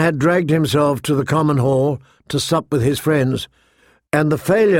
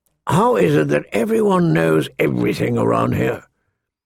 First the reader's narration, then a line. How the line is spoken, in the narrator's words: Mormont grumbled